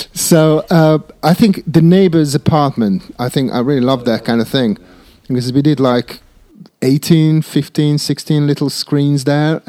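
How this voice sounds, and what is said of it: Speaker's own non-native accent. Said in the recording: “That must be my accent.”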